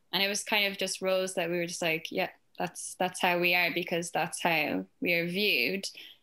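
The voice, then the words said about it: Irish accent. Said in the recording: “from my accent, I'm from Ireland”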